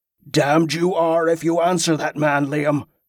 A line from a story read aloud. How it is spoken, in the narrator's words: Angus snarled